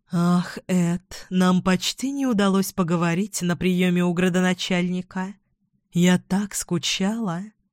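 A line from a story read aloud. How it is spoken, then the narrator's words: Affectionate coo. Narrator (Russian): проворковала она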